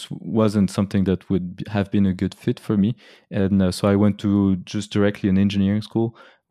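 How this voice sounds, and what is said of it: Swiss accent with American traces. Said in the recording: “a little bit of Swiss accent in your voice, but we can hear as well a little bit of American accents”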